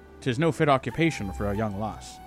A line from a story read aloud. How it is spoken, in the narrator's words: he said